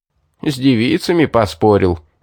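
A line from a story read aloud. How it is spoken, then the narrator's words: Men laughing. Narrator (Russian): засмеялись паромщики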